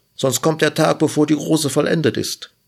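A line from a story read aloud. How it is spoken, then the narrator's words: Bush calling out. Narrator (German): rief der Strauch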